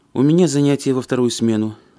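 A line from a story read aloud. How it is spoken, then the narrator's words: Sighed. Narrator (Russian): вздохнула Александра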